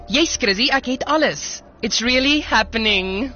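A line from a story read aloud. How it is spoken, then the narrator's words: Anxious, smiling. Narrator (Afrikaans): sê Amelia met 'n angstige glimlag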